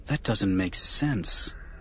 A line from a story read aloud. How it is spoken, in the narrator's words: Anakin muttered